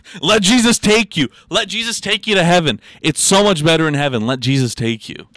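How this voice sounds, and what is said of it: Preacher-style sermon voice. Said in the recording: “You sound like a preacher.”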